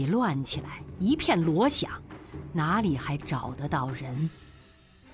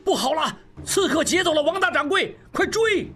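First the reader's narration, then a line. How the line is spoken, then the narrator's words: Loud shout. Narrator (Chinese): 何大掌柜大喊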